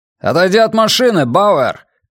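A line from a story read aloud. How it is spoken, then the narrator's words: Shouted. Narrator (Russian): крикнул один из агентов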